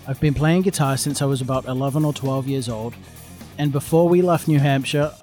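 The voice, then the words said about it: Weird blended mixed accent. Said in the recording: “my weird amalgamated accent”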